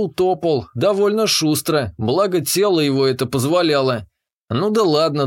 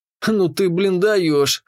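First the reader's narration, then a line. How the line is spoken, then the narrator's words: Snorted. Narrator (Russian): хмыкнул я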